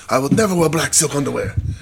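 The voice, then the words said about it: Imitates another person's voice. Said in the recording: “That's a terrible impression”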